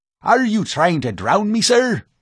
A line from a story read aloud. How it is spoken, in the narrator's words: barked the professor